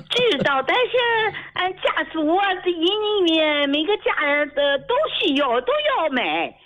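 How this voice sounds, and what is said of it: Dalian regional accent. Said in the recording (Chinese): “我听你口音，大连的朋友吧？... 听出来了啊”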